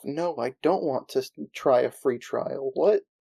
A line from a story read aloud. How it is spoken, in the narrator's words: Over the comms, you can hear Daniel mutter to himself